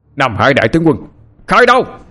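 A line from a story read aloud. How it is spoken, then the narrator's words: Sudden loud shout. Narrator (Vietnamese): Đột nhiên anh hét lớn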